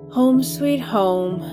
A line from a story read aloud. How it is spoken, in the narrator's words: Helen sighed